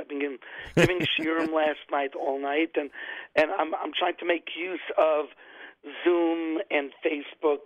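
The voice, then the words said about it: Slightly hoarse voice. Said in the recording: “You could tell I'm a little bit hoarse.”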